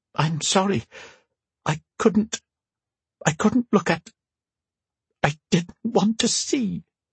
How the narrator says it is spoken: said with a meek whimper

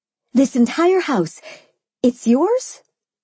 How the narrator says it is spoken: I exclaimed

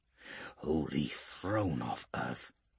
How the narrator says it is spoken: he whispers softly

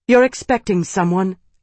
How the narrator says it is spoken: Isana said sharply

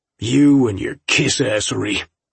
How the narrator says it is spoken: Fred spat

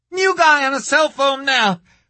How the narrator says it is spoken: the dispatcher screamed

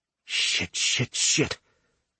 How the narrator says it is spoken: Javier mutters

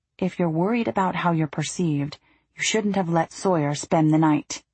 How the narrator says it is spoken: kept his voice low as he said

